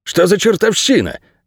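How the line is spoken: Barked. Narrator (Russian): рявкнул Джар

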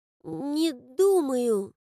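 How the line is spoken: Babbling. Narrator (Russian): залепетал Микки

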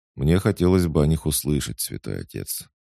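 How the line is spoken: Calm. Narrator (Russian): спокойно сказал я

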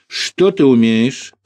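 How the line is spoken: Relayed question, translator-like. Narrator (Russian): словно переводчик или ретранслятор переадресовал Григорий Григорьевич вопрос телохранителю

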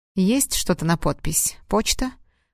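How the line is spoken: Cold. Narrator (Russian): холодно спросил Платон

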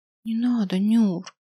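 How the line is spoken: Whispered. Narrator (Russian): прошептала

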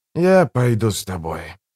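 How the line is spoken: Heavy sigh. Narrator (Russian): тяжело вздохнул проповедник

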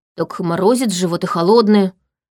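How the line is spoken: Grumbling mutter. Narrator (Russian): буркнула я

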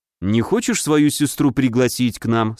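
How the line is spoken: Plain. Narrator (Russian): спросил я

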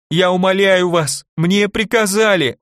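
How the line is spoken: Sobbing. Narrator (Russian): он всхлипнул

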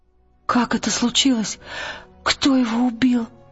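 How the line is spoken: Trembling voice. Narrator (Russian): дрожащим голосом сказала Лира

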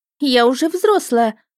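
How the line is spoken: Indignant squawk. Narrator (Russian): возмущенно вякнула Роза

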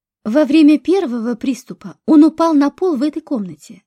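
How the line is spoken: Plain. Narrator (Russian): сказал Дронго

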